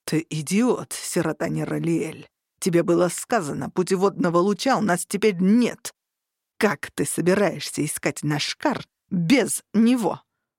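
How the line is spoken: Hissed. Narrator (Russian): буквально прошипел Тарухан

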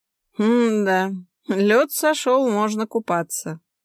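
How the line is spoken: Chuckled. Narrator (Russian): хмыкнул кто-то

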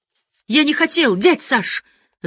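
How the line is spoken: Distant shout. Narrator (Russian): закричал друг Боречка издали

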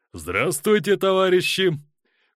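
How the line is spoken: Loud shout. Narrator (Russian): крикнул он громко

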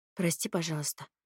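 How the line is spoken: Quiet. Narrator (Russian): тихо произнесла я

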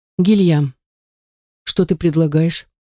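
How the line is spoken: Calm question. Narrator (Russian): Я спрашиваю спокойно

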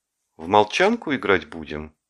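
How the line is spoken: Polite question. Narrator (Russian): спросил он вежливым голосом

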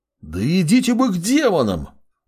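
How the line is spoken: Roaring young man. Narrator (Russian): Взревел парень

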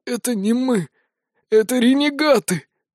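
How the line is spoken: Dying man's rasp. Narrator (Russian): прохрипел агонизирующий Айканар

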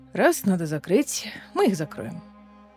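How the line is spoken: Grim, smiling. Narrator (Russian): мрачно улыбнувшись, сказал Гарель

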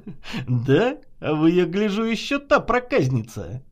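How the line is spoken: Laughing shopkeeper. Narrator (Russian): засмеялся продавец

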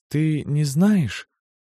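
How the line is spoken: Quiet heartfelt voice. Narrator (Russian): вдруг начала каким-то тихим, задушевным голосом

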